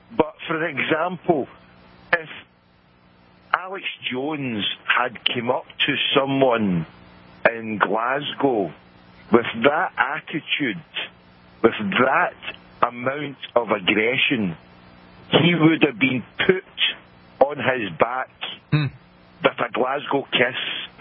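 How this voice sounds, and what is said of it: Scottish accent. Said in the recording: “you're hearing a Scottish accent”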